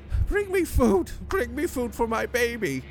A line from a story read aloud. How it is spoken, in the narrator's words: she screams a high pitched wail